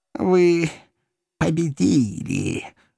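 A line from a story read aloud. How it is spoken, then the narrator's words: Villainous hiss. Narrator (Russian): прошипел законченный негодяй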